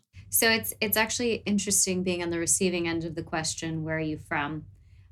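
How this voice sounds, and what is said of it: American accent. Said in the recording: “your beautiful, beautiful accent ... non-American accent”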